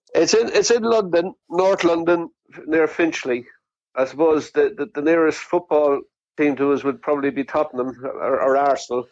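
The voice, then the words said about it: English accent. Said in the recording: “as you can tell by my English accent”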